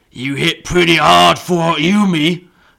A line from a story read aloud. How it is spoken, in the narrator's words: the orc grunted